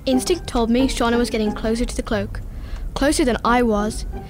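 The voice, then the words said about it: Dramatic podcast narrator voice. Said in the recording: “Why is she talking like that? ... Podcast voice.”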